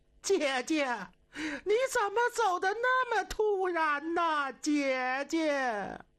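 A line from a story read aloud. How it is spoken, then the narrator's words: Crying. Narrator (Chinese): 西太后这一哭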